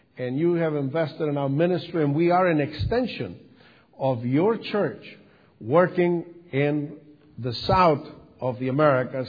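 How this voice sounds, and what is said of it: Sicilian Italian accent in English. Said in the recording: “I have a southern accent? It comes from southern Italy, from Sicily ... English is language number three for me”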